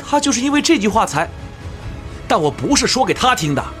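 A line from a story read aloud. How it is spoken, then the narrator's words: Shouting. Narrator (Chinese): 音乐疯子伊格尔喊道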